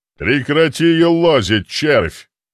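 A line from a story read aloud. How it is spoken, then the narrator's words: Growling. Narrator (Russian): рыкнул дьякон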